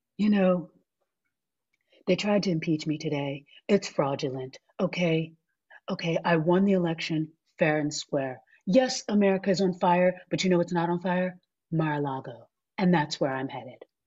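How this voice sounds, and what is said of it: Imitates another person's voice. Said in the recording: “my Donald Trump impression”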